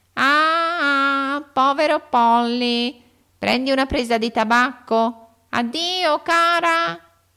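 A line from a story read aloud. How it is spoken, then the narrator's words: Shaken shout. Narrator (Italian): gridò Polly scosso come era dalle ripetute tirate di Lori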